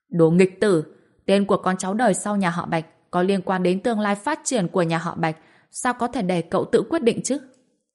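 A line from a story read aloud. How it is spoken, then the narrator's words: Furious yell. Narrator (Vietnamese): ông hai kia lập tức biến sắc, gào lên một câu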